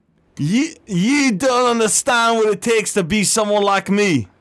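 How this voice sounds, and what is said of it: Inconsistent put-on British accent. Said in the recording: “I sound like a British fucking idiot now ... My accents are all over the place.”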